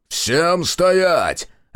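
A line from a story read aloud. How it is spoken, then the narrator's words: Barked command. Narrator (Russian): рявкнул он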